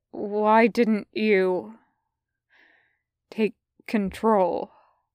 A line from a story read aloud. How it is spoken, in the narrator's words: Reaper says slowly